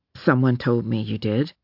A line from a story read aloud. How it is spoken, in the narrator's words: Roulette said in a low voice